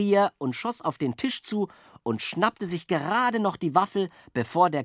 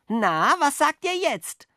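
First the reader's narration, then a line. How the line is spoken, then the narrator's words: Calling out. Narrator (German): rief Jockel den Spatzen zu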